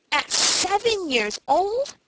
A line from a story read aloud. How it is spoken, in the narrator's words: exclaimed Frank in amazement